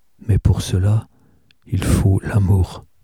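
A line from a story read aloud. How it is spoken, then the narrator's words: Restrained, to himself. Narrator (French): Il dit d'une voix retenue, comme pour lui-même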